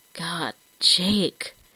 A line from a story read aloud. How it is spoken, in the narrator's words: he whispered, his whole body trembling in an effort to stay still